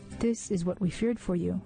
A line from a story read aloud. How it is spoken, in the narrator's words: they said